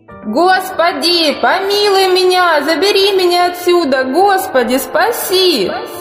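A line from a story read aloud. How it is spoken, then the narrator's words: Terrified, desperate scream. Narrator (Russian): От страха и отчаяния она закричала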